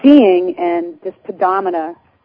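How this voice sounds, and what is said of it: Put-on Boston accent. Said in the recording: “that was my Boston accent.”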